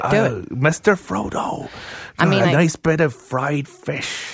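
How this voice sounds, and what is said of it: Imitates a film character's voice. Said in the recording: “a Samwise Gamgee impersonation”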